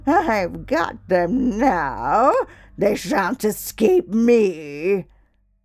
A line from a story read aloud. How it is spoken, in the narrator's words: she laughed maliciously and said jeeringly